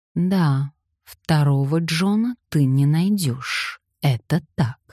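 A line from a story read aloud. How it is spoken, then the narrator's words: Plain. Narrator (Russian): сказала Виолетта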